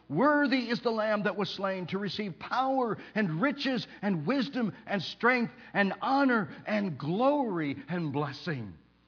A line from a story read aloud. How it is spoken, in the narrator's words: the people around the throne shout with a loud voice